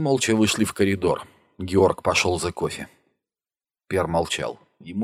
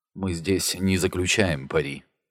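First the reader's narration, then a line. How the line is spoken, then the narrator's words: Gentle, soft doctor. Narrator (Russian): мягко сказал врач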